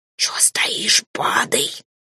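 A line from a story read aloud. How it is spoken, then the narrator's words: Hissing. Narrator (Russian): прошипел фамильяр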